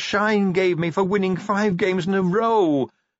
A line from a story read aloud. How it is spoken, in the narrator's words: he wailed